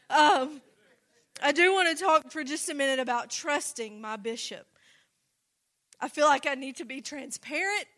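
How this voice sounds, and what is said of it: Slow Tennessee accent. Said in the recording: “This Tennessee accent slows me down a little bit”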